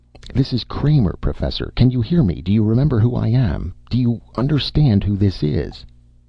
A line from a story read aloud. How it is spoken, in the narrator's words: the wall speaker made a sound, a sputtering static